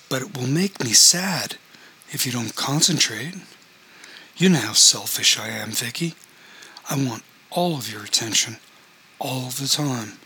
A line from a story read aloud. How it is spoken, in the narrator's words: he said, loudly enough to project to the whole of the room